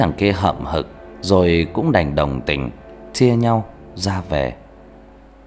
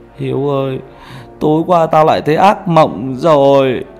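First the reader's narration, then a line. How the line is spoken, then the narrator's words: Tearful, quivering. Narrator (Vietnamese): mếu máo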